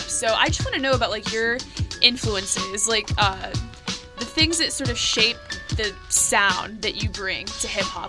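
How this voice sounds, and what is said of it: Valley girl way of talking. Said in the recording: “She talks like a valley girl.”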